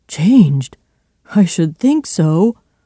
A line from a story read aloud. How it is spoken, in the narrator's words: cried Poole